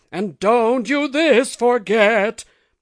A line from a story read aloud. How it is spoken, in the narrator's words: The house roared it out